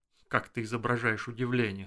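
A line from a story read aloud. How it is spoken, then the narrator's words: Plain. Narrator (Russian): сказал Эрик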